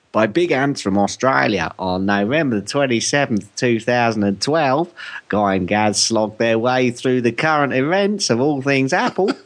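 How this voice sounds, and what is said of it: Put-on Australian accent. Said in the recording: “I'll try an Australian accent.”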